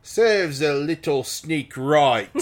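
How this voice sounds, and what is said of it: Put-on Oxford English accent. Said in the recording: “in what can only be described as an Oxford accent ... That's Oxford.”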